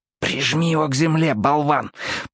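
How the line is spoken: Whisper. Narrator (Russian): прошептал Уот

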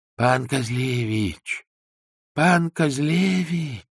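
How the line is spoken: Quiet calling. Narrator (Russian): Ксензы тихо звали

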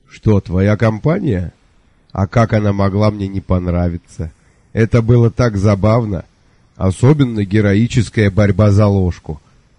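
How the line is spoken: Hearty laughter. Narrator (Russian): Сэр Кофа расхохотался

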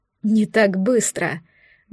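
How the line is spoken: Good-natured chuckle. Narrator (Russian): Добродушно хохотнул мужчина

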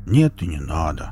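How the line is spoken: Upset grumbling. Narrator (Russian): расстроенно буркнул Велес

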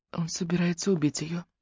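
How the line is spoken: Whispering. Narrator (Russian): прошептала Руби

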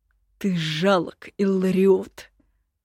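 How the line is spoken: Hissed through teeth. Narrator (Russian): процедил император

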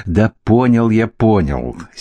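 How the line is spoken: Angry interruption. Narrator (Russian): сердито оборвал его Эверар

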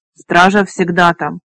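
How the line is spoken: Sharp repetition. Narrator (Russian): резко повторил он

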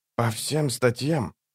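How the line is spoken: Quiet. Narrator (Russian): тихо проговорил он

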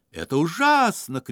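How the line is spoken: Shouting. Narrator (Russian): кричал он

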